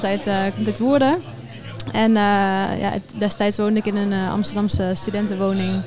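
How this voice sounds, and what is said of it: Slight Brabant Dutch accent. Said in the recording (Dutch): “een, een, beetje een Brabants accent...Klein beetje. Hij kan het niet verbloemen”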